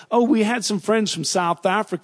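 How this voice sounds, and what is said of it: Put-on American accent. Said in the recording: “in my American accent”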